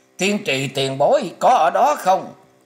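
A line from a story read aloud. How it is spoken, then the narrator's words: Loud calling. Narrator (Vietnamese): Tỉnh Lân to tiếng gọi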